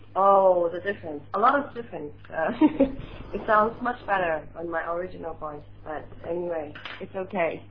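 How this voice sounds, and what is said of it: Voice in poor condition. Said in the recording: “My voice is still very bad.”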